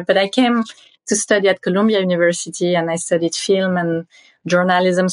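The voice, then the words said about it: Strong French accent. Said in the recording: “I still have my very strong French accent.”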